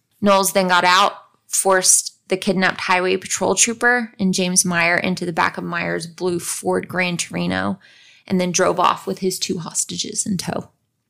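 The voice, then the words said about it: Strained voice, losing it. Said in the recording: “I'm losing my voice.”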